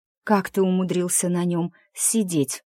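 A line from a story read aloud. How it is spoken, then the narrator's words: Skeptical exhale, dragon. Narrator (Russian): Дракон скептически выдохнул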